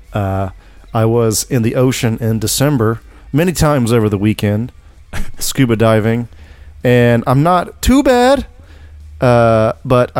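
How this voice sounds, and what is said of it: Congested, sniffly voice. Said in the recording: “I got the sniffles today... my voice is a little different than usual”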